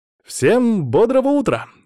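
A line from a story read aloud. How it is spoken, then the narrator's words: Cheerful exclamation. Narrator (Russian): с широкой улыбкой воскликнул я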